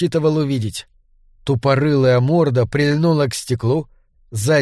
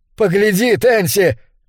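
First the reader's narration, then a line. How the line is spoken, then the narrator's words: Shouting, choking with laughter. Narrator (Russian): крикнул он, давясь от смеха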